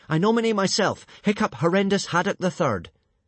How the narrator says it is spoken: Hiccup shouting

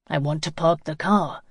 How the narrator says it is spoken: grunted

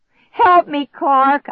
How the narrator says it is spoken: I screamed

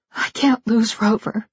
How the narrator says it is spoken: she whispered, utterly miserable

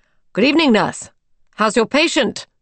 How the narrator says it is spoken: called out the doctor

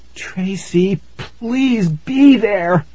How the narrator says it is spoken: I cried

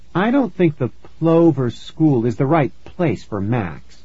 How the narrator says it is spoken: the mom said

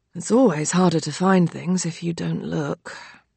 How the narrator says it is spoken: Dad mutters

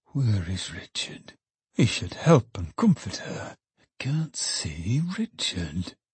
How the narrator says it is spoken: Trotty only murmured more and more

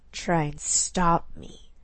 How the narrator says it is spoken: she growled back at him

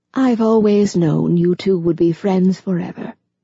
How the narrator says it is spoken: Ava said in a gentle voice

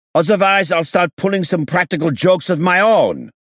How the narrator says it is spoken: he snapped

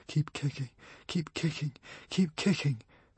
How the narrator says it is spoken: Fishlegs muttered

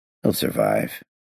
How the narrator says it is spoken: I muttered

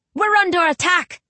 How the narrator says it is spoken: he shouts

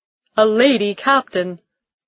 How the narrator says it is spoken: he called out

